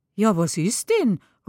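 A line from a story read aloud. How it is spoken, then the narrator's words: Exclamation. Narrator (German): ruft sie aus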